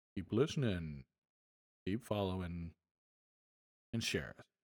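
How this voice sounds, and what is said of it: Deliberately low voice. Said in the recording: “in my nice low voice”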